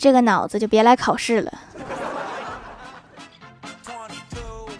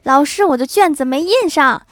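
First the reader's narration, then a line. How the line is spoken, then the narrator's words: Man shouting. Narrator (Chinese): 考场上一个男的大喊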